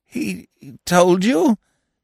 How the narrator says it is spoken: he stammered

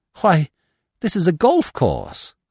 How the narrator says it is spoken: I cried

